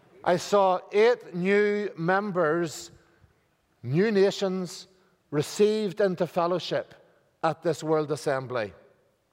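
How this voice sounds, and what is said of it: Speaker's own noticeable accent. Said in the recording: “if you're having trouble with my accent”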